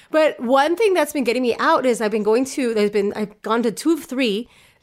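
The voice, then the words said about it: Congested voice from a cold. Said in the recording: “I have a cold. It is not COVID, I checked. I do have a cold. So if you hear that in my voice”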